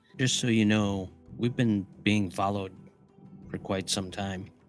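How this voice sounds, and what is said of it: Lowered, quieter voice. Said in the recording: “lower my voice a little just so it's not blaring across the whole place... his lowered voice”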